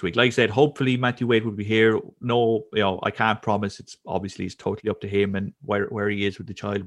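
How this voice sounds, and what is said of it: Irish accent. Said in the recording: “my dulcet Irish brogue”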